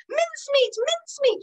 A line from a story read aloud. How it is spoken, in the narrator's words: cried